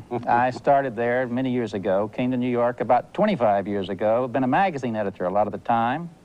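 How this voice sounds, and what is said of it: North Carolina Southern US accent. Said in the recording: “that fancy foreign accent ... From North Carolina ... We all talk that way down there”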